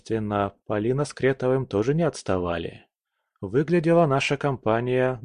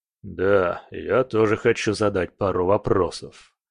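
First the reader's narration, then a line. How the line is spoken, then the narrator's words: Deep bass voice. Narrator (Russian): пробасил Громыцкий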